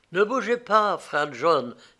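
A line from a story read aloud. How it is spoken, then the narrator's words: Soft exclamation. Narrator (French): s'écria-t-il doucement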